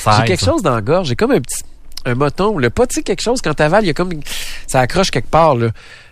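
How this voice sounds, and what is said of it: Slightly nasal, cold-sounding voice. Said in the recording (French): “J'ai-tu une voix enrhumée? ... Oui, peut-être un peu, mais pas majeur ... T'as un accent du nez ... Un peu du nez”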